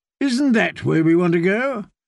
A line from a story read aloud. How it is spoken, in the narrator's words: Sir Hyle called out from behind them